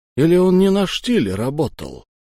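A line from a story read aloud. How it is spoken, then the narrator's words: Realizing guess. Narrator (Russian): первым догадался Кречетников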